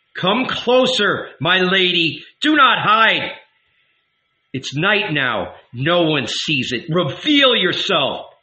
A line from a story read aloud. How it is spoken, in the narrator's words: the Son of Mary cried out